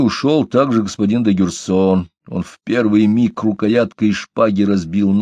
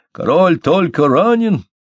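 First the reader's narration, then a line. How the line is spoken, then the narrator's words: Shout carrying down street. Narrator (Russian): крикнул на всю улицу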